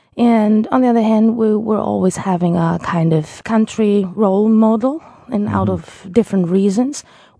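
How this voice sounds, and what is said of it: Mixed non-native English accent. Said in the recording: “my accent is TV accent. It's a bit of everything. So completely mixed.”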